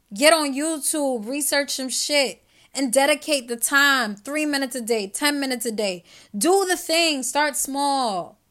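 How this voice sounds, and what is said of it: Loud passionate yelling. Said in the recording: “I'm yelling at y'all a little bit ... I get really passionate”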